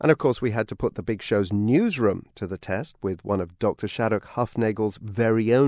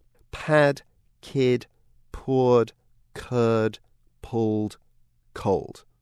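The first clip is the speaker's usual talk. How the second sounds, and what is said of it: Slow, deliberate speech. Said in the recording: “You're supposed to say this kind of fast, but I'm going to say it slowly here just for clarity's sake.”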